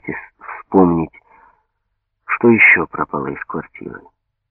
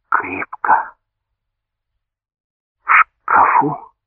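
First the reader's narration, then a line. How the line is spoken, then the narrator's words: Hoarse question. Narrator (Russian): Он облизнул пересохшие губы и хрипло спросил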